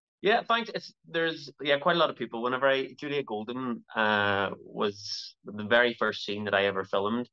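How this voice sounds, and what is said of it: Belfast Northern Irish accent. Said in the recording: “that Belfast, Bast, Belfast accent there”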